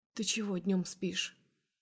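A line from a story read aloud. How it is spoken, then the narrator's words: Smiling whispered question. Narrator (Russian): улыбаясь, спрашивает шепотом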